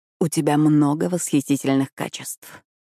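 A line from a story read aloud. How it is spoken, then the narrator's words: Whisper. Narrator (Russian): прошептал он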